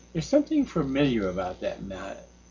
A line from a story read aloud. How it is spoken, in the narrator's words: Zhao said quietly to himself